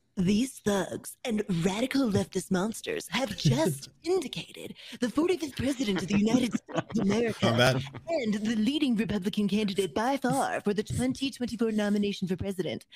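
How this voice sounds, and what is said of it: Imitates another person's voice. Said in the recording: “do a good Trump voice.”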